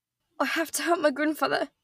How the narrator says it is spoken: Nora said hoarsely

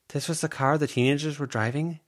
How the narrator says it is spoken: Avery asked

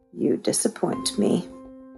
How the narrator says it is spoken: she whispered

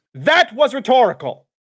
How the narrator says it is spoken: He barked

